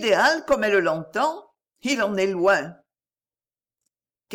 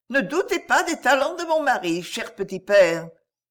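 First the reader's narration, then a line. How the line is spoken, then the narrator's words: Cheerful. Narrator (French): dit-elle gaiement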